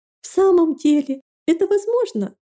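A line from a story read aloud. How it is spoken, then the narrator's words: Incredulous exclamation. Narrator (Russian): воскликнула Фелисия на предложение Рэйчел, словно это можно было считать серьезно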